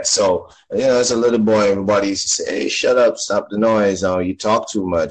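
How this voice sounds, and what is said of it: Jamaican accent. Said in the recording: “I'm from Jamaica, by the way, right? You could hear the accent.”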